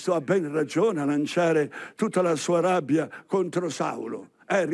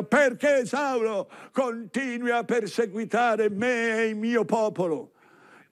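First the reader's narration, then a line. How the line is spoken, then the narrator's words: Shouting from above. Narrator (Italian): Cristo di sopra grida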